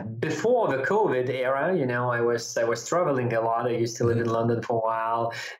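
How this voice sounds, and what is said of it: Lithuanian accent. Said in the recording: “You've got a bit of an accent ... a bit of accent ... I'm Lithuanian”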